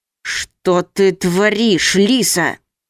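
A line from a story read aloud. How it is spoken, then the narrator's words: Man hissing. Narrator (Russian): прошипел мужчина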